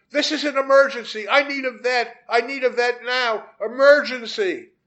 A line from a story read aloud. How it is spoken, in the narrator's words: yelling